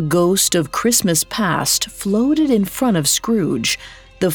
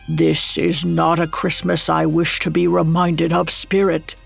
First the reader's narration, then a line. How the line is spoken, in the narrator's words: Scrooge croaked out